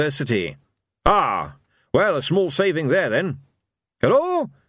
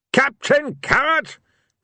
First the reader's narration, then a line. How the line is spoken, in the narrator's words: Ridcully roared